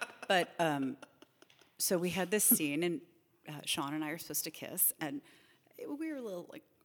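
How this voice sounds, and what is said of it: Usual voice. Nothing is said of it.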